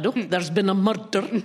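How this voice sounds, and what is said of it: Put-on regional accent. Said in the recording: “That was an excellent accent.”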